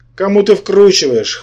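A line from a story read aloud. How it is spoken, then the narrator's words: Scoffing sorcerer. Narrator (Russian): хмыкнул колдун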